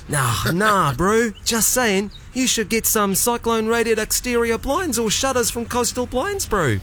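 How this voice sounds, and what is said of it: New Zealand accent. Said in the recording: “your Kiwi accent”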